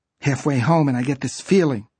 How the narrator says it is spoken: Shirley said in an unsteady voice

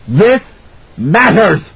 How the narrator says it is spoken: he shouted

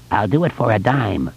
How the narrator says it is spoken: the hobo croaked

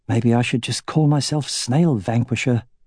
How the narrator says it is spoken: he muttered as he rolled a section of a pillar across the courtyard

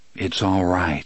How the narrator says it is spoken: he said softly

